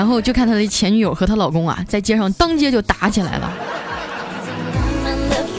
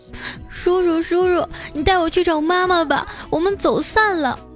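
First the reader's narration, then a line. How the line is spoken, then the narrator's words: Tearful little girl. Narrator (Chinese): 七八岁的小萝莉，一脸泪水的哭着说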